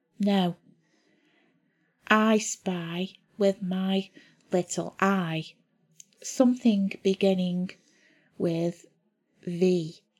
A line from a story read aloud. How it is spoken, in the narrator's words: the boy said slowly